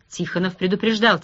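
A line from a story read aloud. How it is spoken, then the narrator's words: Quiet. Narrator (Russian): тихо сказал Росс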